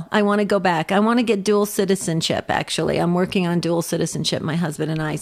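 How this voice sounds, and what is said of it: New Jersey accent. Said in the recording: “You can hear my New Jersey accent coming out.”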